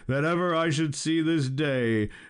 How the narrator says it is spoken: cried Balin

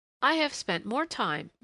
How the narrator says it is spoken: Miss Jeffries was confiding brightly

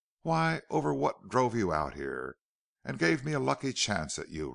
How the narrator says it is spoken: replied Kells, with a constrained laugh

